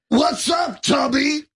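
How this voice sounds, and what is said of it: Impression of a drunk man's voice. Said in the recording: “you do a great Jeff the Drunk Eric impersonator ... do a little Jeff the Drunk”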